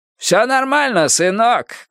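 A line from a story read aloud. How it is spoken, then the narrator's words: Shouted. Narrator (Russian): выкрикнул папа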